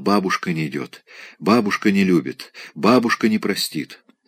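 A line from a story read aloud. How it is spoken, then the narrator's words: Delirious repeated whisper. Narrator (Russian): Просыпаясь в забытье, Вера постоянно шептала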